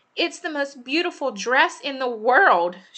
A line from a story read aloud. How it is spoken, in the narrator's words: she screamed